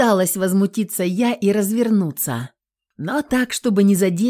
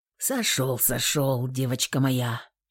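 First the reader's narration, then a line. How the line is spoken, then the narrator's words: Grumbling. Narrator (Russian): проворчал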